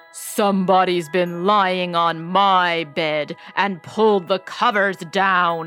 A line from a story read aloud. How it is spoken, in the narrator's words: he growled in his great big voice